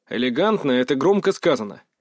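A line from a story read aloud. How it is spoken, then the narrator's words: Snort. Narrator (Russian): фыркнул я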